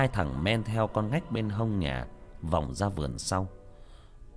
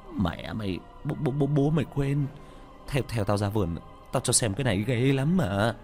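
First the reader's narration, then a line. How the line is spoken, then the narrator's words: Stammering. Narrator (Vietnamese): Thằng ở ngoài vườn lắp bắp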